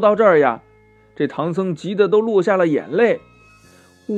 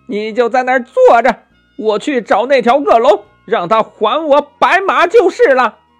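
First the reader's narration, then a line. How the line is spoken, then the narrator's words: Loud shout. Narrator (Chinese): 大声的叫道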